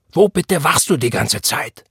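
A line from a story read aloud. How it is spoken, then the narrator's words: Roaring. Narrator (German): brüllte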